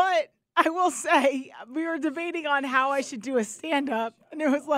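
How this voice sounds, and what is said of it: Usual voice. Nothing is said of it.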